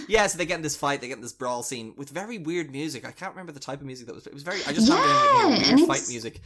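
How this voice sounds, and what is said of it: Usual voice. Nothing is said of it.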